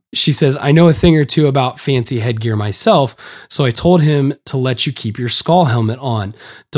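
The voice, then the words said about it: Hoarse, strained voice. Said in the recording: “it's hard to get air through my hoarse voice here”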